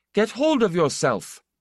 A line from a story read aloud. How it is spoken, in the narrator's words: He was rough, and his voice was very angry